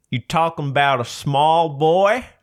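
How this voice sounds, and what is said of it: Hit-and-miss put-on southern accent. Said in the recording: “a bit southern ... I'm a bit hit and miss with the accents”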